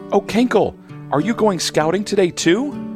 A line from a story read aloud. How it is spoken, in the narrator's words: Hannaby buzzes excitedly